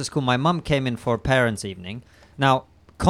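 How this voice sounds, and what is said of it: Usual voice. Nothing is said of it.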